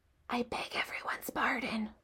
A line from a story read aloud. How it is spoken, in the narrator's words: whispered Wilbur